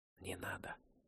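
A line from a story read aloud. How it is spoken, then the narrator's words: Whispering in ear. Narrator (Russian): шепнула ему на ухо Мэри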